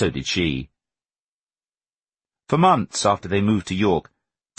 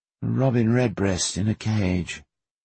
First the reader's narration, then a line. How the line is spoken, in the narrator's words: Teddy murmured